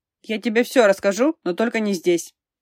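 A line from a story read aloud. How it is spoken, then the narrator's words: Hurried. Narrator (Russian): торопливо произнес он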